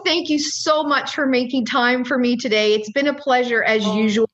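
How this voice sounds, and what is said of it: Newfoundland accent. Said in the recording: “Don't you just love that Newfoundland accent?”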